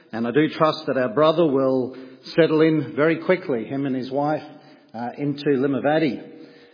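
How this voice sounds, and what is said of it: Australian accent. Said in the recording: “As you can tell by my accent, I'm a fellow countryman. I'm very delighted to see another Aussie”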